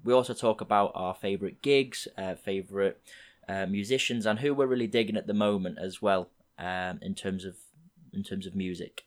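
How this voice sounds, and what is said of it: Slightly croaky voice. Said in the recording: “my voice is a little bit croaky”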